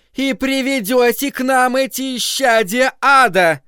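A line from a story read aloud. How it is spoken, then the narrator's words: Shouted out. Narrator (Russian): выкрикнула миссис Кармоди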